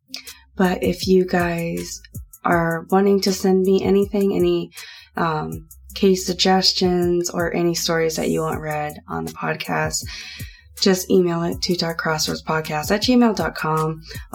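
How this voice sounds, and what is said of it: Scratchy voice from a cold. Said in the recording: “sorry for my voice. I know it sounds a little scratchy. I have a really bad cold”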